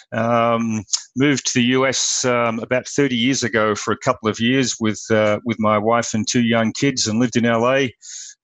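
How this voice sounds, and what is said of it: Australian accent. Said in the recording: “I come with an accent from Australia originally.”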